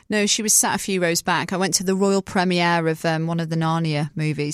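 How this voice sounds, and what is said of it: British accent. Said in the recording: “you're saying that in a British accent”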